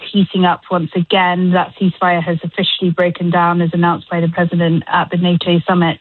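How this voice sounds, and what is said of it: English accent. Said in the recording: “can you hear my accent? ... I'll be watching it in England”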